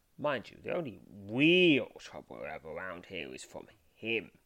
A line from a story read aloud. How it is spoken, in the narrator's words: he says, lowering his voice at the word